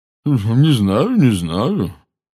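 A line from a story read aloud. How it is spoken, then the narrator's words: Objecting, thick voice. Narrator (Russian): возразила мадам Боунс своим густым голосом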